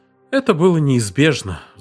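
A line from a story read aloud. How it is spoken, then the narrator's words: Sigh. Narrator (Russian): вздохнул он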